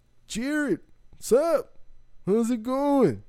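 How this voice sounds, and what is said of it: Imitates another person's voice. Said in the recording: “I could do Casey.”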